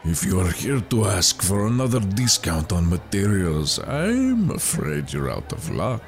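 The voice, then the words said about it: Raspy, surly character voice. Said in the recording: “a large and surly man ... with a raspy voice”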